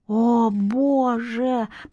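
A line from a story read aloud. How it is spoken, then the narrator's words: Said through clenched teeth. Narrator (Russian): процедила Лёля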